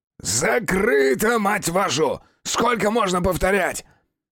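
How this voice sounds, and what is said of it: Hoarse, strained shouting voice. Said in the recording (Russian): “Надрывался охрипший воин 200 уровня”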